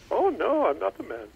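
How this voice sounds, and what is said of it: Mrs. Doubtfire-style weird accent. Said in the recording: “That was a very good impression ... In a weird accent.”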